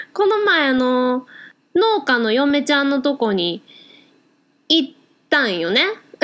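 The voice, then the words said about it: Clumsy put-on Kansai dialect. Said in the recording (Japanese): “大阪弁で、本当に下手くそだった ... 関西弁で行こう”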